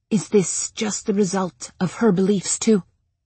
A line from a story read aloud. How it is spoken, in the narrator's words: Miranda whispered